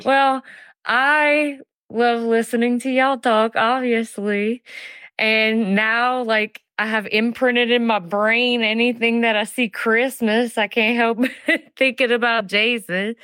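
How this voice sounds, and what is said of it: Speaks with a noticeable accent. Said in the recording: “I love your accent so much. I could just hear you talk all the time.”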